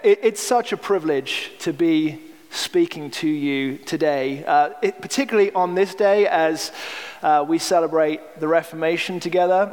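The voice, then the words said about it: Non-Southern accent, from Manchester. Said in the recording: “you'll have to get used to the accent. I'm sorry, I can't do what you guys do. I'll try a y'all at some point”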